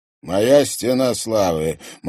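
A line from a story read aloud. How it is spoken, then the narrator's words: Grim smirk. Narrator (Russian): мрачно усмехнулся Влад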